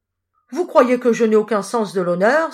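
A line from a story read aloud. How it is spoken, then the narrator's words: Exclaimed. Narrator (French): s'écria-t-il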